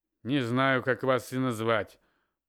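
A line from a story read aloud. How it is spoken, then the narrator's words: Through gritted teeth. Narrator (Russian): процедил старший лейтенант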